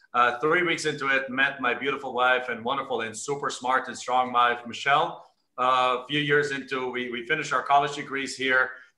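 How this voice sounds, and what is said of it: Strong German accent. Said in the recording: “I have a much stronger accent than you... I obviously I sound like Arnold... I'm actually from Germany originally”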